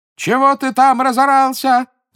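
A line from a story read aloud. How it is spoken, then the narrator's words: Shouted. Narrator (Russian): закричал безногому слепой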